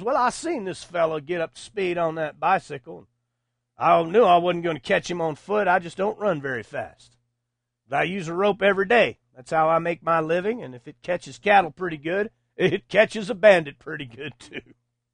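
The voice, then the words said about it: Put-on Texas accent. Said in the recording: “I'm affecting the Texas accent”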